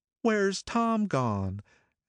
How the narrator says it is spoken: she'd look around uneasily and say

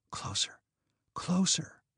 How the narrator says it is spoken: she whispered

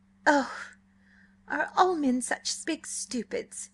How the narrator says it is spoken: She cried

